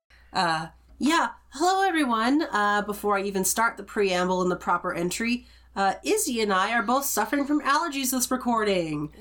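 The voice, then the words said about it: Nasal, congested voice. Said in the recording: “if I sound nasally, that's why”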